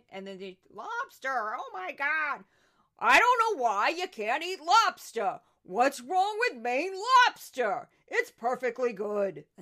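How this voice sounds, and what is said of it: Imitated voice with New York accent. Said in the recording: “That's my Judge Jeanine. I think I'm getting better at her. I got the weird New York accent in addition to her rhythm and her cadence.”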